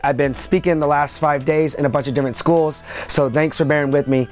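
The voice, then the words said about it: Slightly hoarse, strained voice. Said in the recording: “I'm losing my voice a little bit.”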